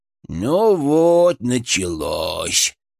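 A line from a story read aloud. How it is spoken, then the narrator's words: Wistful drawl. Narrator (Russian): с тоской протянул Фырк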